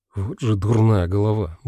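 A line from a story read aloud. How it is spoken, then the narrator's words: Angry muttering. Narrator (Russian): бормотал я сердито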